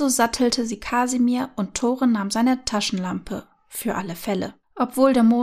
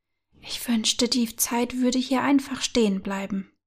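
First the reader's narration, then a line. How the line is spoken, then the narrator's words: Whispered. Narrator (German): flüsterte Nala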